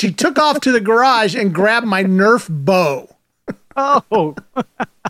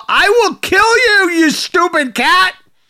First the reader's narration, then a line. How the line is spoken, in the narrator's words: proceeded to shout